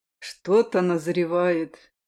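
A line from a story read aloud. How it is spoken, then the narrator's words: Sudden, quiet. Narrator (Russian): вдруг произнес Айрилет тихо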